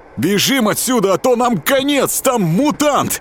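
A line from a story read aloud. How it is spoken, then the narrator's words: Agitated shout. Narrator (Russian): Взволнованно прокричал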